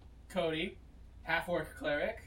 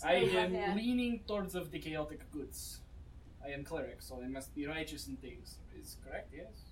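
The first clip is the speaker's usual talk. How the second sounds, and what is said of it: Put-on Russian accent. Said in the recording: “I will be doing the Russian accent”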